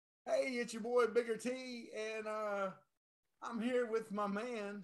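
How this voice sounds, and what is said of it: Usual voice. Nothing is said of it.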